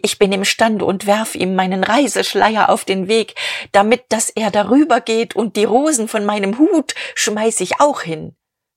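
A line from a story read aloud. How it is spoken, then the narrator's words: Calling out. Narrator (German): rief sie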